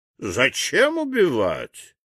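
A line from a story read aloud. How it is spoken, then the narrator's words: Calm objection. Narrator (Russian): спокойно возразил хранитель времени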